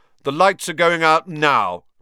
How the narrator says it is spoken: shouted

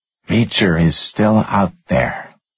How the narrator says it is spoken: she said quietly, like a move in a game of chess

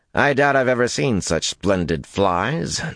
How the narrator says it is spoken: Nalesian grumbled

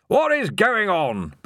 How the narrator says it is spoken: bellowed Ridcully

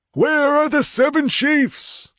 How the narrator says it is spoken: howled the old chief

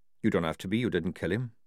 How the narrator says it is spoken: said Jackram evenly

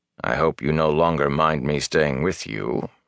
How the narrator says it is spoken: he said dryly

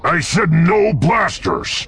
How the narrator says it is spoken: the barkeep growled

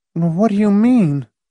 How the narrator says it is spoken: Marcia faltered

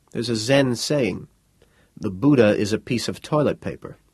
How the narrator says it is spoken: Ray reminded her softly

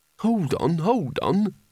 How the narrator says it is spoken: said Rincewind urgently

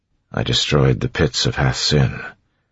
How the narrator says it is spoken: Kelsier said quietly

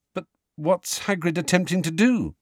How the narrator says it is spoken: said Harry nervously

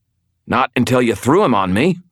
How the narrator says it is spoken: I snapped

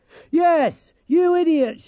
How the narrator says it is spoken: shouted Dorcas

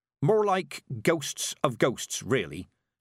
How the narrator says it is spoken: said Mistress Weatherwax

